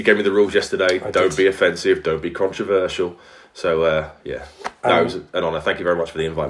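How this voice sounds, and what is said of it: Strong Welsh accent. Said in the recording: “your crazy Welsh accent”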